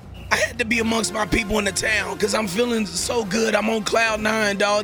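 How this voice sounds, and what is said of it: Hoarse, worn-out voice. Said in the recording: “excuse my voice, y'all, because obviously with the game last night, I went out and did a little bit of celebrating”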